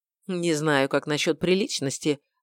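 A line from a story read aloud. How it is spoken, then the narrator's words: Grumbling. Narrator (Russian): буркнул я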